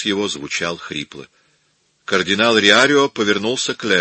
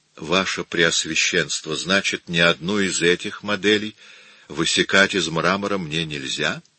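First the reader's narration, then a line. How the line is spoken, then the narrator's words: Plain question. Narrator (Russian): спросил Микеланджело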